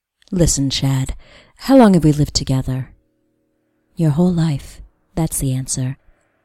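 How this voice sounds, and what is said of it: Whispering voice close to the ear. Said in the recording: “My mouth is half an inch from your left ear, and I'm whispering.”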